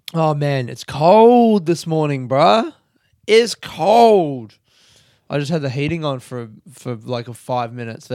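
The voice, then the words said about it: Crackly morning vocal fry. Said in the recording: “Can you hear it in my voice? My crackly little vocal fry”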